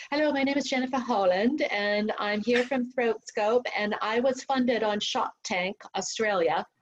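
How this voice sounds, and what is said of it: Impression of Jennifer Holland, sounding British. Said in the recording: “my little impersonation of her, but she gets so really violently mad at me because I sound British and she is Austrian”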